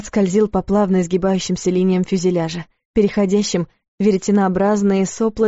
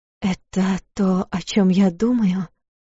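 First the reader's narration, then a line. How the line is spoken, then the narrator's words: Quiet question. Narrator (Russian): тихо спросила Луиза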